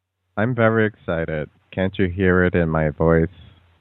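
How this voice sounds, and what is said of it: Flat, robotic delivery. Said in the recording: “you're sounding robotic again”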